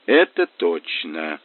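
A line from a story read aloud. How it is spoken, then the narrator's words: Thoughtful mutter. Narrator (Russian): задумчиво пробормотал Мазур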